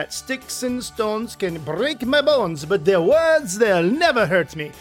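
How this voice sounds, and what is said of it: Made-up foreign accent. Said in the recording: “That accent is completely imaginary. I live in the middle of nowhere, so I don't really run into a lot of foreign accents.”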